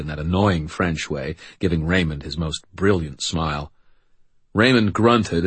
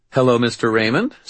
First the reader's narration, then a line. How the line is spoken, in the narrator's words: Sarah said brightly